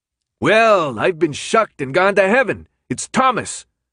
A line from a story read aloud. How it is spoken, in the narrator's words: Minho called out